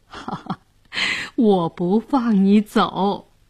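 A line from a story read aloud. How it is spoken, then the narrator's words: Laughing, playful. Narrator (Chinese): 姑姑笑着说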